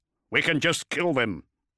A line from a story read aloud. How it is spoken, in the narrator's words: Zaphon barked the words over the vox network